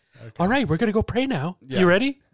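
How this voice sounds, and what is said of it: Poor imitation of another person's voice. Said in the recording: “The Mark Wahlberg accent and everything ... It was a horrible Mark Wahlberg.”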